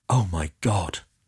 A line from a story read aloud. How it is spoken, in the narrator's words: whispered Marchin